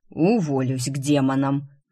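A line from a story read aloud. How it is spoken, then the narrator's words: Exasperated exhaled aside. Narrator (Russian): в сердцах в сторону выдохнул Горгорницкий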